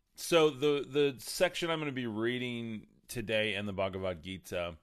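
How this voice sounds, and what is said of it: Slightly off, unwell-sounding voice. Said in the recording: “I'm a little under the weather this morning ... my voice is a little off”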